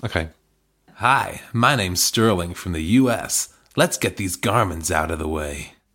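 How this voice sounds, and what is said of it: Put-on American accent. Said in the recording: “Oh, should I do an accent? I have had people say to me I should consider doing accents, but I'm not really an artisan of the accent. ... Please do an accent.”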